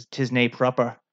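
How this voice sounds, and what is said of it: Bad put-on Scottish accent. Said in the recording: “That's my bad Scottish accent.”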